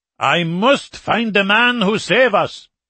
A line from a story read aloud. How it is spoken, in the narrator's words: the Norwegian insisted loudly and drunkenly